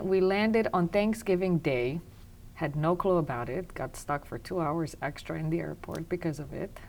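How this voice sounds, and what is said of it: Romanian accent. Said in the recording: “As you picked up an accent, I am Romanian.”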